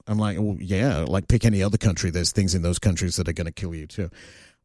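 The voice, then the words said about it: Australian accent. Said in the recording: “they hear my accent, and they're like, oh, you're from Australia?”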